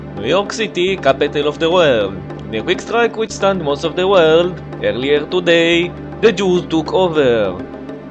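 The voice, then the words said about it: Bad put-on Israeli accent. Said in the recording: “in a very bad Israeli accent”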